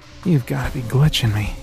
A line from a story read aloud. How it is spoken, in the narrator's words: breathed in disbelief